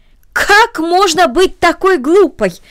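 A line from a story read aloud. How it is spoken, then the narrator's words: Aunt exclaiming. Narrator (Russian): воскликнула тетя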